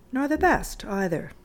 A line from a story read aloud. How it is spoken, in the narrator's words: said Aunt Emmy gently